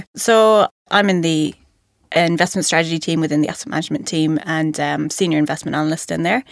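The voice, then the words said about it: Irish accent. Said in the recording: “you might know from my accent that I'm not a local ... Originally from Ireland”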